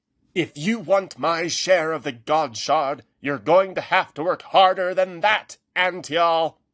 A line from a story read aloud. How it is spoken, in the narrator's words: Haggerty shouted